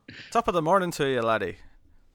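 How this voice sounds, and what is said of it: Poor attempt at Irish accent. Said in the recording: “I can't do an Irish accent ... I can't do it. See? It's so terrible.”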